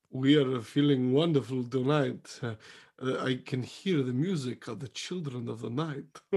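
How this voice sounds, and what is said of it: Put-on theatrical accent. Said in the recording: “what accent are you doing?”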